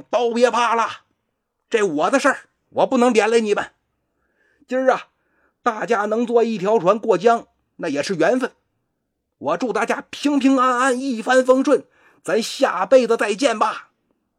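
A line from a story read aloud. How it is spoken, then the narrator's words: Loud shout. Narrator (Chinese): 南宫安大喊一声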